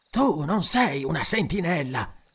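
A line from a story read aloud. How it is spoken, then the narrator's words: Stranger hissing. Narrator (Italian): sibilò finalmente lo straniero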